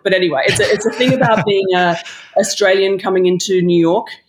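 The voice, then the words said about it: Australian accent. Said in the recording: “that's Australian accent? I thought it was Staten Island.”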